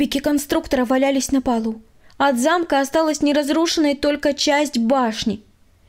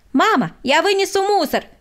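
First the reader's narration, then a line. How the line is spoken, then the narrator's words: Shout. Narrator (Russian): крикнул Владик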